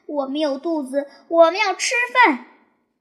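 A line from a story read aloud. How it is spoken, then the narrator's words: Loud shout. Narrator (Chinese): 大声喊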